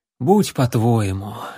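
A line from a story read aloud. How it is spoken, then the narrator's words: Sighed. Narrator (Russian): вздохнул воин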